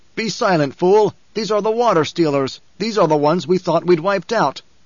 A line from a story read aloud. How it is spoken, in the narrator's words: a darker desert Fremen snapped